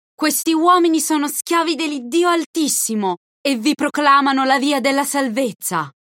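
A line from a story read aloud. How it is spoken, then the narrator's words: Girl shouting. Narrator (Italian): La ragazza gridava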